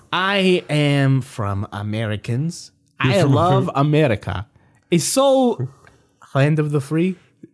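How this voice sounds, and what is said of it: Hard-to-place put-on foreign accent. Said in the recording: “it's your accent. Your accent's throwing me off a little bit ... I can't tell where you're from”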